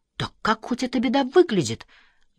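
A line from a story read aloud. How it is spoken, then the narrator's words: Exclaimed. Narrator (Russian): воскликнул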